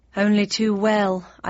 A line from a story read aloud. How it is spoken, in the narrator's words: I sighed, thinking about my old home in unpublished fiction with a mixture of fondness and relief